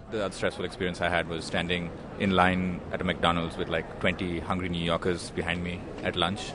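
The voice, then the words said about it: Indian-accented English. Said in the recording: “from India ... the lady in front couldn't understand my accent.”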